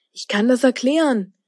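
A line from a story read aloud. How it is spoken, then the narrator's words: Calling out. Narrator (German): rief Linus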